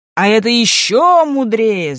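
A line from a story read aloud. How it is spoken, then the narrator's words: Crowd of courtiers shouting. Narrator (Russian): закричали придворные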